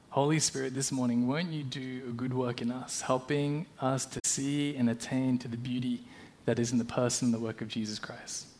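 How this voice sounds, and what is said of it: Australian accent. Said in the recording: “You can probably tell by my accent that I'm Australian, or at least I grew up in Australia”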